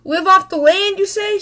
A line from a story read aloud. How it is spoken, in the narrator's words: shouted Mama as they ran for the cabin